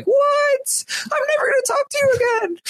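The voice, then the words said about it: Impression of Derek, tearful. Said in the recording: “That was a pretty good Derek impression.”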